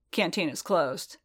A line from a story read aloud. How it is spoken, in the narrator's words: Colburn said, his tone flat